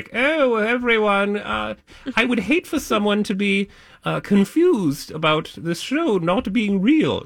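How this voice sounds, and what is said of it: Put-on British accent. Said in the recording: “She doesn't talk like that at all. That's my one British accent.”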